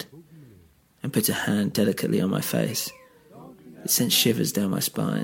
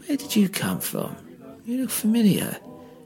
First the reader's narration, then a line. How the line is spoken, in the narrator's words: the skinny man piped up